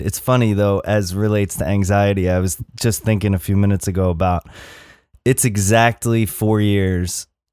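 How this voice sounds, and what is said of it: Low, mellow voice. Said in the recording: “You got a perfect podcast voice. It's so low and mellow.”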